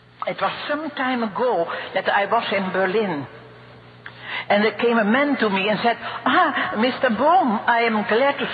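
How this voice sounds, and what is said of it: Strong Dutch accent. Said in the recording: “She has a pretty strong Dutch accent, which I could listen to all day.”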